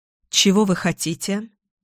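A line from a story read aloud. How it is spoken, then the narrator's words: Forced calm, hiding fear. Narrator (Russian): Сердце колотилось как бешеное, но каким-то чудом я смогла задать этот вопрос спокойно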